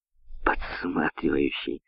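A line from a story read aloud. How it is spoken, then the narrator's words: Giggling. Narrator (Russian): хихикнул Херман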